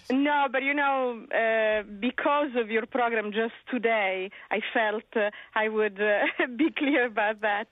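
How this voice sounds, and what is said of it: Italian accent in English. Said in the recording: “if you believe you sense an accent, you're correct. I'm originally Italian”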